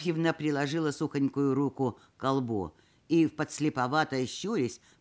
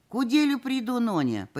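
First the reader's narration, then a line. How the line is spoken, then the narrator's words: Old woman explaining, sighing. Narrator (Russian): пояснила, вздохнув старушка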